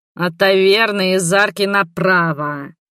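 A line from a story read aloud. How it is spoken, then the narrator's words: Muffled growl. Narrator (Russian): рыкнул он мне из-под шляпы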